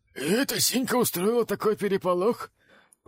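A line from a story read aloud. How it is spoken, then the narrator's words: Hoarse wheeze. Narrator (Russian): прохрипел один из бледнокрасных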